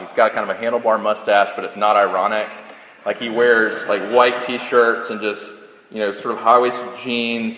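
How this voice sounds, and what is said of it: Mild Southern US accent. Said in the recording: “I know I kind of have a Southern accent”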